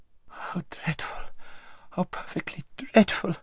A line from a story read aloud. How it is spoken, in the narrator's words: whimpered Lazareline